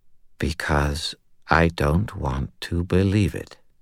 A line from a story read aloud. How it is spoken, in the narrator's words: he said in a quiet, numb voice